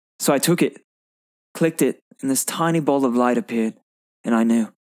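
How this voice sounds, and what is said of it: Performs an accent in a monologue. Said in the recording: “Nice job on the accent, too.”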